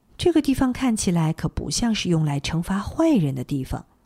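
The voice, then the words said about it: Quiet, soft-spoken line. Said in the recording (Chinese): “小声的说了一句”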